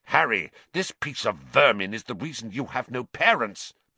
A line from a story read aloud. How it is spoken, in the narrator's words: Black snarled